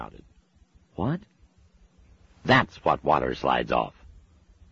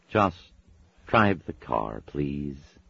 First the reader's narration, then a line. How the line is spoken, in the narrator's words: he said wearily